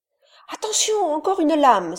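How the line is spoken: Exclaimed warning. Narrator (French): s'écria Moko

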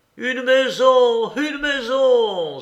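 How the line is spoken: Joyful exclamation, like sailor. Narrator (French): s'écria avec le plaisir qu'aurait eu un marin à crier

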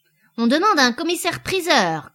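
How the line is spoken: Shouting. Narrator (French): cria le botteleur

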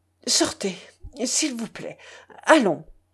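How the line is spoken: Confused stammering. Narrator (French): bégayait Lambert, tout à fait confus

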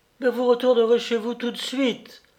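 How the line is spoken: Cutting, curt tone. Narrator (French): répéta-t-elle d'un ton coupant

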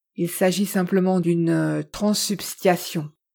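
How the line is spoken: Plain. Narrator (French): dit Edison

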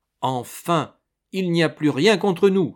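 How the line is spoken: Exclaim. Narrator (French): s'écrie-t-il

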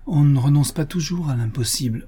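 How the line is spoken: Sighing. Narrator (French): soupira-t-elle

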